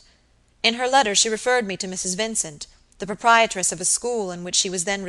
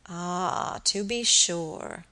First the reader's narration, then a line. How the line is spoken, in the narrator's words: muttered Mr